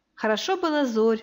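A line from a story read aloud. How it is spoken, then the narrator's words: Sigh. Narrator (Russian): вздохнула Диана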